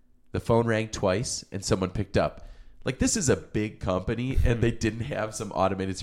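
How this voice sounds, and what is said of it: Usual voice. Nothing is said of it.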